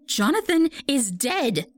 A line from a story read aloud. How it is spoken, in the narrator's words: she cried